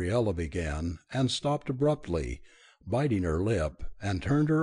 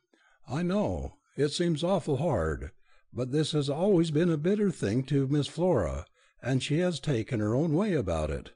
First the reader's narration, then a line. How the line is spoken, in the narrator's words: Margaret said, kindly